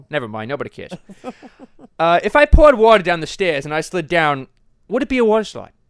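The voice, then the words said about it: Toned-down Rhode Island accent. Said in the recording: “I could probably do a much thicker Rhode Island accent ... kind of tone it down just a little bit ... I can hardly understand you now.”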